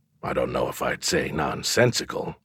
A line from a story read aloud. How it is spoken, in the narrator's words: I muttered